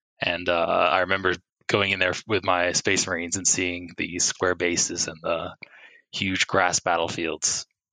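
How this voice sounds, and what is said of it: American accent. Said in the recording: “although I have an American accent, I grew up in the UK until I was 12”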